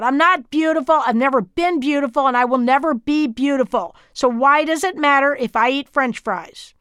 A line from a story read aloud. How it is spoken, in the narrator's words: the sobbing happened